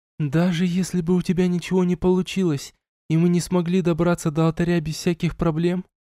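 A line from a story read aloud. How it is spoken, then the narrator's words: Quiet question, girl. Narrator (Russian): тихо спросила девчонка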